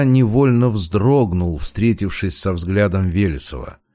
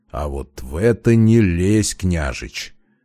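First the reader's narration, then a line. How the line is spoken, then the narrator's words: Muffled, through gritted teeth. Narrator (Russian): Кое-как поборов рвущуюся наружу звериную суть, глухо процедил Демьян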